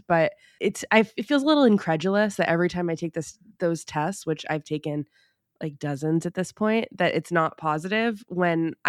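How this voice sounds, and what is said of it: Sick voice with a cold. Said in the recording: “I came home with a cold... definitely feeling the effects of the cold medicine”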